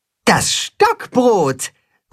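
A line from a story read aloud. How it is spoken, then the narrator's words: Calling out. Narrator (German): ruft das Katzenhuhn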